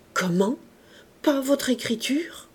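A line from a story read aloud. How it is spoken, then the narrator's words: Stammering. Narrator (French): balbutia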